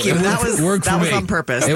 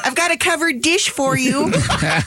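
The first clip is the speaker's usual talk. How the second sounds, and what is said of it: Exaggerated mixed Midwestern accent. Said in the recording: “What the hell that accent is? ... It's kind of like an amalgamation of all the Midwestern into one disgusting dialect.”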